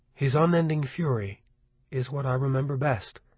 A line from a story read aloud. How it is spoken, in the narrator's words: LeBay repeated softly